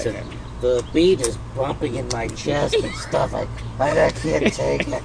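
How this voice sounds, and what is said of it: Groggy imitation of another person. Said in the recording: “That's exactly what you sounded like. ... What a great impersonation. ... God, I sound that groggly.”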